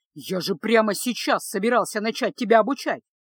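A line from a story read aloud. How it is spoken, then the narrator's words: Exclaiming. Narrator (Russian): воскликнул маг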